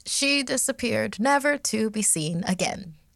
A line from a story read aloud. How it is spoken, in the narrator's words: she said in a bright tone, almost too cheery